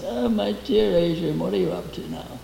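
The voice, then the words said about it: Put-on posh aristocratic accent. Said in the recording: “My mother wanted to be aristocratic ... She would put on an accent,”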